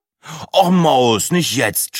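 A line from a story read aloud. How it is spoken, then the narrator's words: Groaning. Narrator (German): stöhnte Breitling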